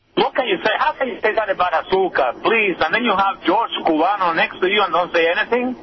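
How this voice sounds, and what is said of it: Unconvincing fake accent. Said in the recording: “Nice fake accent ... Go back and work on it some more, and the accent, too”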